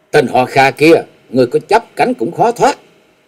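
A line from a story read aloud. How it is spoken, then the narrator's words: Low sharp shout. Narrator (Vietnamese): khẽ quát lên một tiếng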